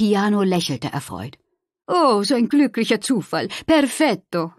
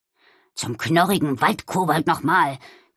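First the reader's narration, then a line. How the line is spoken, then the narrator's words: Growled. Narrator (German): knurrte Balduin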